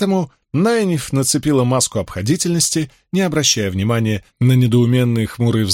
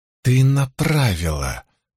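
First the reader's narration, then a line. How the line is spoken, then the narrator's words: Declared through clenched teeth. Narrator (Russian): заявила Найниф сквозь зубы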